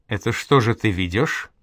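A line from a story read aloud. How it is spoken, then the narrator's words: Plain. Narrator (Russian): спросил Десяцкий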